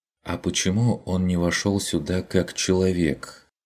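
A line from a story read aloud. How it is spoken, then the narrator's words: Quiet timid question. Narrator (Russian): Тихо, несмело спросила Мария Дишер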